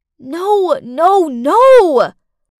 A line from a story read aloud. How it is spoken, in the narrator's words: I screamed inside my head